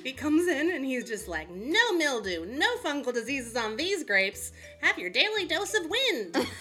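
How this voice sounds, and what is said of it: Playful put-on character voice. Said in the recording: “That's my Cape Doctor impression.”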